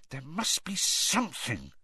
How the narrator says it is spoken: Hermione muttered

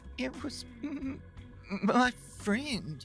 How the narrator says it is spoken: Finally, he sputtered

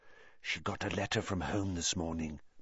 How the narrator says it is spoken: Parvati whispered

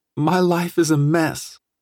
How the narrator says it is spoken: sobbed

